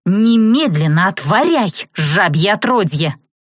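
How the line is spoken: Growled. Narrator (Russian): прорычала я

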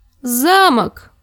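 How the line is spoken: Sudden thin childish exclamation. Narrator (Russian): воскликнул вдруг тонкий ребяческий голос

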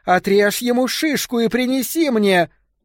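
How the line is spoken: Woman screaming. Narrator (Russian): женщина, скорее всего, Петра, завопила

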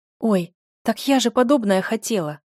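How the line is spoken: Exclaimed. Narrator (Russian): воскликнула Оля

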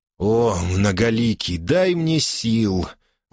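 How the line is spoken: Moaning. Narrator (Russian): простонал Падди

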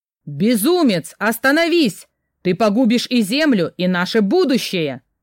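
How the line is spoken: Thundering elders' voices. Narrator (Russian): прогремел голос старейшин

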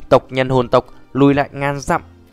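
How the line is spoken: Loud commanding shout. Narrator (Vietnamese): hồn thiên đế lớn giọng quát

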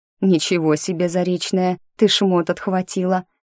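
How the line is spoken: Mocking. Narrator (Russian): насмешливо говорит Алиска

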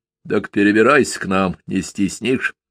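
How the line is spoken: Embarrassed, muffled offer. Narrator (Russian): вдруг смущенно и глухо предложил Калина

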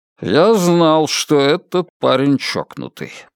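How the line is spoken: Muttering under breath. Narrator (Russian): пробурчал себе под нос Мальоре

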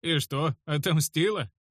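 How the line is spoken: Mocking smirk. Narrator (Russian): усмехнулся я насмешливо

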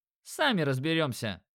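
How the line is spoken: Smirking grunt. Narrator (Russian): хмыкнул Димон

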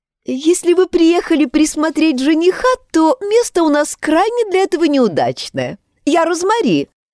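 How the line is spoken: Laughing. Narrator (Russian): рассмеялась

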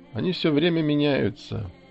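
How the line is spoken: Sleepy mumble. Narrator (Russian): сонно пробормотал Гзин

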